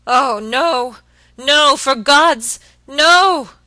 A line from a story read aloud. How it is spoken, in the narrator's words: he shrieked hoarsely